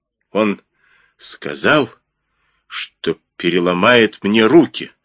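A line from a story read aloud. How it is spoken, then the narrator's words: Quiet trembling voice. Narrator (Russian): пояснил Джипа тихим, дрожащим голосом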